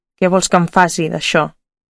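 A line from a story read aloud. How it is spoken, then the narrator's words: Spiteful murmur. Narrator (Catalan): ella amb despit va murmurar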